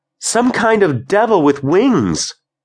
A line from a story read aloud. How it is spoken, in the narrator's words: cried another